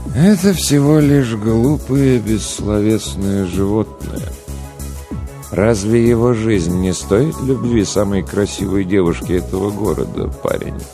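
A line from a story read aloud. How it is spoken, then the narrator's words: Sad sigh. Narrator (Russian): Грустно вздохнул Голубоглазый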